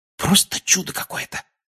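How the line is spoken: Whispered. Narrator (Russian): прошептал он

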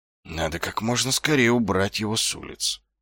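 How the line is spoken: Muttering. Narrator (Russian): пробормотал он

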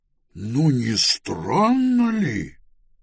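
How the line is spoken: Exclaiming. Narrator (Russian): воскликнул он

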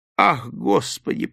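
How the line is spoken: Groaning. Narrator (Russian): простонал он

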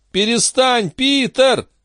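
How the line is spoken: Yelling. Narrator (Russian): завопил Андерсон

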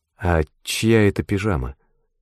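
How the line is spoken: Sleepy voice. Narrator (Russian): сонным голосом спросила

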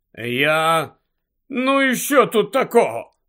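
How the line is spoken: Grumbled. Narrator (Ukrainian): буркнув Гаррі

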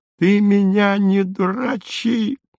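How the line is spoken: Shrieking. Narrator (Russian): завизжал он

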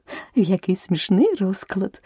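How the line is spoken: Exclaimed. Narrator (Ukrainian): вигукнула Аліса

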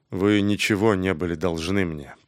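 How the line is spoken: Grumbled. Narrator (Russian): проворчал он

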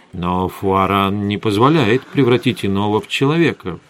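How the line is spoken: Mutter. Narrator (Russian): пробормотал я

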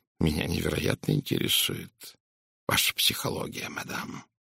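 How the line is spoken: Quietly spoken. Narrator (Russian): тихо произнес он

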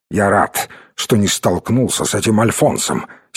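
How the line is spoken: Angry remark. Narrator (Russian): сердито заметил он

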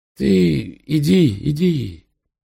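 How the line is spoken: Weak, frightened voice. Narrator (Russian): Кажется, устрашился такой прозорливости, слабым голосом сказал

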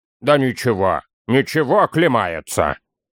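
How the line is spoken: Deep bass voice. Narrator (Russian): пробасил Торин

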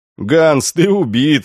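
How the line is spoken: Laughing. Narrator (Russian): рассмеялся наставник

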